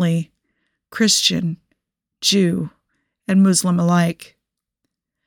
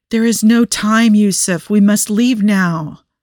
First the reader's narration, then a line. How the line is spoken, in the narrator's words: Hashim pleaded